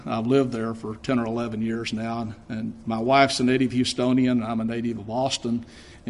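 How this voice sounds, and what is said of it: Texan accent. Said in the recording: “I'm traveling on a Texas passport ... if you didn't know by my accent, I'm not from Chicago”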